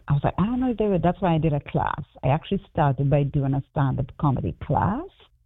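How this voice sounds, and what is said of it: Trinidadian accent. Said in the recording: “people who have never seen a Trinidadian on the stage doing stand-up comedy ... people wouldn't get my accent ... with my accent translate on stage ... your accent is great”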